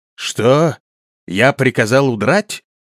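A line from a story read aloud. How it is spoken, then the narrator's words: Indignant exclamation. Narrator (Russian): воскликнул возмущенный Лер Монруил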